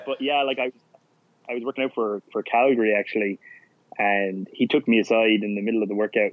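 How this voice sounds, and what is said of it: Irish accent. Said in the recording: “I was a rugby player from Ireland... oh, so you're from Australia... They kind of can't distinguish the accent.”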